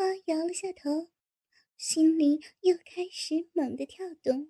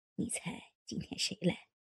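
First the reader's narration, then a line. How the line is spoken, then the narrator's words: Hushed, mysterious. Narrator (Chinese): 老牛头神秘地压低了声音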